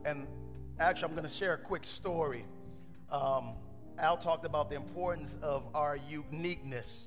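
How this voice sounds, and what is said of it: Hoarse, strained voice. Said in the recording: “You all can hear it in my voice, right? My voice is hoarse. ... I lost my voice ... I'm screaming out”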